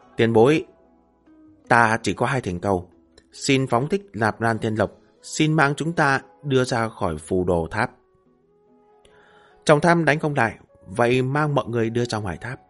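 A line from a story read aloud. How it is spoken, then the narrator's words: Deep low voice. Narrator (Vietnamese): trầm giọng nói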